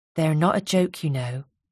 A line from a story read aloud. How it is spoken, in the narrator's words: said Ruby quietly